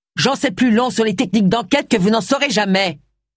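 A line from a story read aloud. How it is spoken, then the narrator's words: Thundered. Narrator (French): tonna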